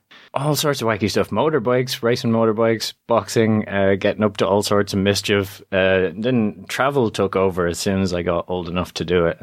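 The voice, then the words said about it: Faded, mixed Irish accent. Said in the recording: “mixed up Irish accents ... I'm from Ireland originally, but the accent has gone to pieces”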